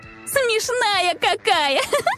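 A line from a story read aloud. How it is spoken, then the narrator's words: Laughing woman. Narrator (Russian): Рассмеялась гонщица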